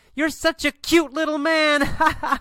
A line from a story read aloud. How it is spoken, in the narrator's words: Laughs and says